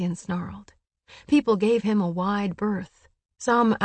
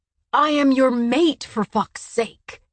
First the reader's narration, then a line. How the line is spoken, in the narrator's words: Cassian shouted, loud enough for people across the river to hear